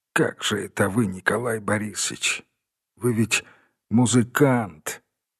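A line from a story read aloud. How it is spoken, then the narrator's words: Quiet, weak. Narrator (Russian): сказал тихо, едва найдя силы для слов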